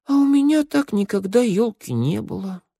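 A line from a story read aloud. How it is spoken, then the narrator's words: Puzzled, then sad boy. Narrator (Russian): недоумевал мальчик и вдруг грустно проговорил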